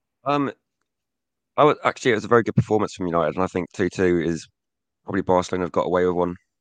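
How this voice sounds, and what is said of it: Rough, strained voice. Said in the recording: “My voice is a bit bad, sure, as you might be able to tell”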